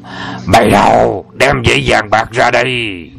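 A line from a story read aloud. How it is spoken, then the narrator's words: Deep booming voice. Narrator (Vietnamese): gã cất tiếng ồm ồm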